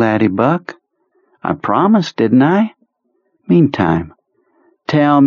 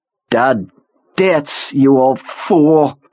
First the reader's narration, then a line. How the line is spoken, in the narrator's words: Perlmutter snarled, then groaned with pain